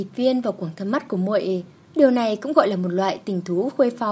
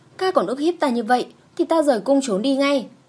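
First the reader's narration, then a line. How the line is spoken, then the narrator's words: Angry. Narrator (Vietnamese): Ta tức giận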